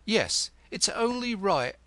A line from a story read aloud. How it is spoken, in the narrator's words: echoed Mortlake, a whit eagerly